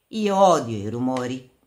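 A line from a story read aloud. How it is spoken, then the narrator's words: Plain, young man. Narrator (Italian): disse il giovane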